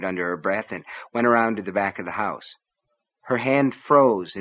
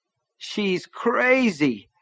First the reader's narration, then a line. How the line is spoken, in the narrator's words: Nettie moaned